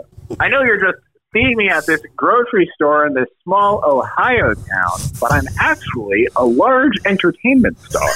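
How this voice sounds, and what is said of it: Impression of Dave Chappelle. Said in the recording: “your impression of Chappelle”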